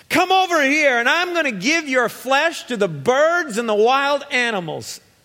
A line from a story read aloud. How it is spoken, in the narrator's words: Goliath yelled